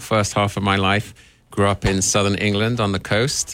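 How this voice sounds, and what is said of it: Southern English accent. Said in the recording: “yours from across the pond ... I do have a slightly funny accent”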